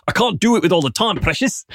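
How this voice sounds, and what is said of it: Put-on South African accent. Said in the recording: “The South African hacker's accent is incredible. I love a South African accent on a bad white guy.”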